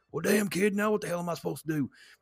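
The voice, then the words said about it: Poor Stone Cold Steve Austin impression. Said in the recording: “do a shit Stone Cold impression”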